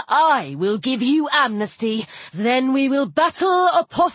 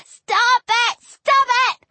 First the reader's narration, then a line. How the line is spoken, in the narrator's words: Little Shelby yelled